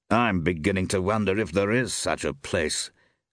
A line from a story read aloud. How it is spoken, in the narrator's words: grunted Temple